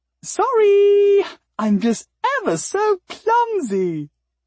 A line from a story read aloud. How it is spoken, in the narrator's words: The Claveret maiden called out in a cheerful, bubbly soprano voice